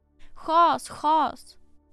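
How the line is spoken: Shouting bailiff. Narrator (Swedish): ropade fogden

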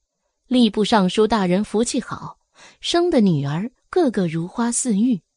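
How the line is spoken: Admiring exclamation. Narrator (Chinese): 小四……感叹了一声

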